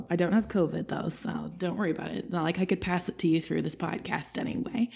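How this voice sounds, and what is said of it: Congested voice from a cold. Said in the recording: “I've got a little bit of a cold”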